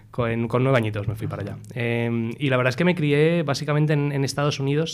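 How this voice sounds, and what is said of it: Spanish with an English accent. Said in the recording (Spanish): “acento inglés entonces. ... De ahí mi acento”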